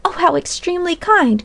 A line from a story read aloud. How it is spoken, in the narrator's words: cried Polly